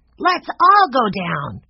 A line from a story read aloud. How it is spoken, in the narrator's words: cried Benny